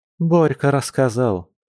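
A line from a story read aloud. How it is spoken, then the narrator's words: Sighing. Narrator (Russian): вздохнула Маша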